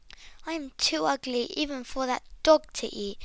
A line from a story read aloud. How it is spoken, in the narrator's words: thought the duckling to himself sadly